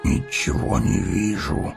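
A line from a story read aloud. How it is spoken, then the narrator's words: Grumbled. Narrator (Russian): проворчал Гимли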